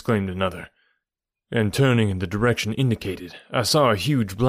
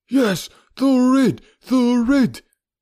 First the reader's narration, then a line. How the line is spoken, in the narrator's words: cried a dozen voices